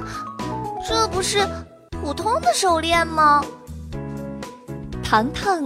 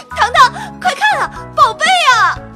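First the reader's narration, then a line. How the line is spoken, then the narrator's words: Excited shout. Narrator (Chinese): 小表姐激动大喊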